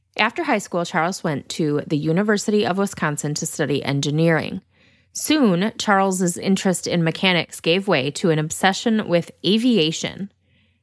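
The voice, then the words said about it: Northern US Midwestern accent. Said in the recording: “I definitely say it with my northern accent.”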